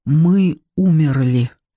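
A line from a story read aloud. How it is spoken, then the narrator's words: Forced out with effort. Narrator (Russian): сумел выдавить из себя царь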